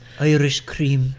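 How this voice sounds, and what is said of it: Put-on Irish accent. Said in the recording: “His favorite accent.”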